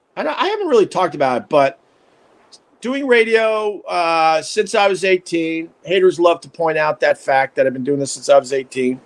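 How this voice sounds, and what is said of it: Scratchy, raspy worn voice. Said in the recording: “my voice is shot... It's really really getting scratchier and raspier... I screamed into microphones for decades”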